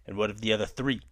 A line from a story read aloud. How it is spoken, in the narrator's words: Kai snaps